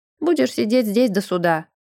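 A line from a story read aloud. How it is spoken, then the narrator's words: Grumbling jailer. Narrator (Russian): пробурчал смотритель тюрьмы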